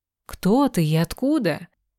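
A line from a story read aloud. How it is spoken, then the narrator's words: Children exclaiming in unison. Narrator (Russian): Почти вместе и в третий раз воскликнули дети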